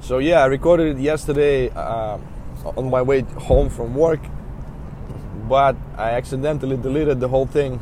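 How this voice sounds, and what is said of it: Voice slightly affected by a cold. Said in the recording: “apologize for my voice. I have a little cold.”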